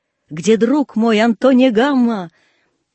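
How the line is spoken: Shouting from horseback. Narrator (Russian): Суворов с коня кричал

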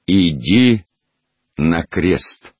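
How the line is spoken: Formal tone. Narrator (Russian): официальным тоном проговорил

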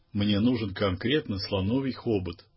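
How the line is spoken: Resigned tone. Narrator (Russian): обреченным тоном произнес мой приятель

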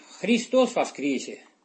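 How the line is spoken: Calm but firm. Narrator (Russian): произнеся спокойно, но твердо

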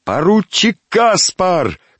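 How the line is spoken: Shout. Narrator (Russian): крикнул один из подбежавших

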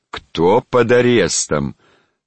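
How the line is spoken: Stern, raised voice. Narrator (Russian): строго повысив голос, повторил его величество

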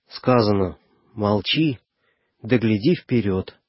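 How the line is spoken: Gentle reply. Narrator (Russian): ласково ответил Егоркин

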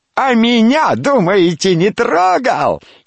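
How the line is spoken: Boastful shouting. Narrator (Russian): Рябая Маврушка и та кричала, словно бахвалясь

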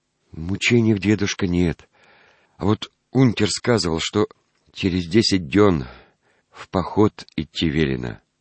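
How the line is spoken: Quiet, trembling voice. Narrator (Russian): отвечал Петруня тихо и дрожащим голосом

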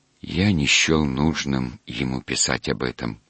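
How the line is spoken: Quiet objection. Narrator (Russian): тихо возразил он

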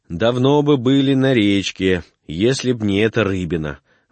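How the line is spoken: Grumbling. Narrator (Russian): ворчал Архип

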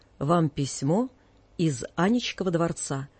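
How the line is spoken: Pompous servant's tone. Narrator (Russian): важным тоном, каким говорят слуги в старинных мелодрамах, лакей сказал

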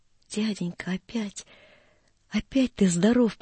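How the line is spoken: Joyful choked whisper. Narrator (Russian): прошептал Гриша и не мог продолжать от радости

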